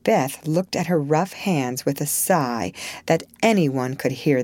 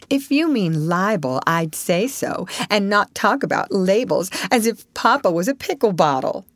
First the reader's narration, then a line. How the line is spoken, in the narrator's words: advised Joe, laughing